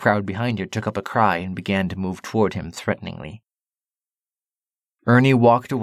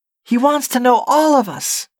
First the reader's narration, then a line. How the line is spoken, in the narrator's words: Ernie shouted from the edge of the road